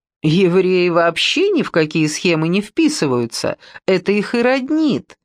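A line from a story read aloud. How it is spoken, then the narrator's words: Laughing. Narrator (Russian): рассмеялся юноша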